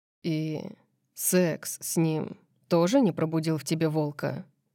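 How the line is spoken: Calm, reasoned question. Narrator (Russian): спросил спокойно, рассудительно, как будто вообще имел право спрашивать об этом

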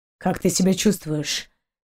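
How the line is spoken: Muffled question. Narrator (Russian): глухо спросил Далок

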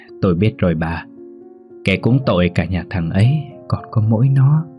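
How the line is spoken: Sighing reply. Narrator (Vietnamese): Bà thở dài một hơi đáp lời bà Tâm

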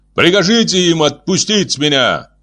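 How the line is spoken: Shout in alien language. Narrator (Russian): выкрикнул он по-вегански

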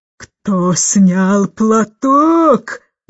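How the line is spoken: Roar. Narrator (Russian): взревела

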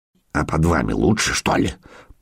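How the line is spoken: Mutter. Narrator (Russian): пробормотал смерть

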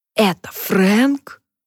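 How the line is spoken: Hissed. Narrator (Russian): прошипела

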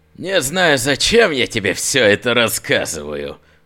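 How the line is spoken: Smirking through teeth. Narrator (Russian): усмехнулся сквозь зубы

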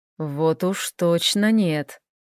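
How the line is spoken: Whisper in the ear. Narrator (Russian): шепнул ей Хел на ухо

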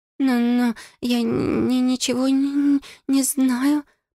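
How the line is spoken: Timid babbling. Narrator (Russian): пролепетала Бекки

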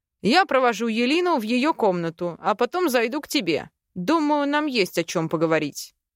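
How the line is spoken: Stern. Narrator (Russian): строго сказал

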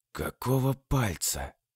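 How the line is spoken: Tense, barely whispered. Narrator (Russian): Напрягаясь, словно пружина, едва прошептал он

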